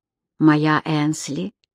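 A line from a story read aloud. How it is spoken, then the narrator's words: Whisper. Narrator (Russian): шептал Кэмерон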